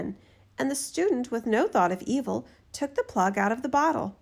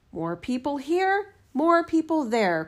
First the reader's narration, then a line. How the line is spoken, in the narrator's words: cried the spirit